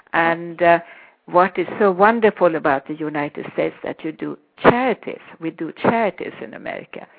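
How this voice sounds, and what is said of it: Swedish accent. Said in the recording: “I speak with a Swedish accent. I'm Swedish”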